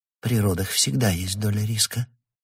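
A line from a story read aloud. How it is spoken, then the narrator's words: Calm. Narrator (Russian): произнесла Каттея спокойно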